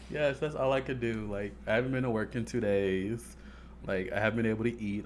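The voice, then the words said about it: Hoarse, nearly lost voice. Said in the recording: “my voice is gone again”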